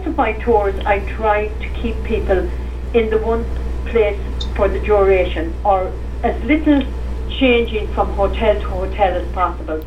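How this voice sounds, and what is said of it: Irish accent. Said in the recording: “they'd hear my accent and they'd say, oh yeah, we were in Ireland”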